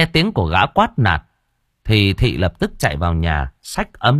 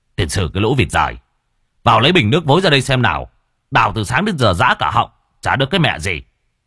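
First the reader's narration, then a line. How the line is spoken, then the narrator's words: Gruff shout. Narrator (Vietnamese): gã quát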